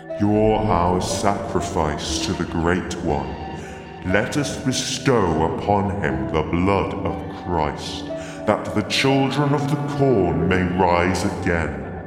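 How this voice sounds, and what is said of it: Deep demon character voice. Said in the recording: “deep voice”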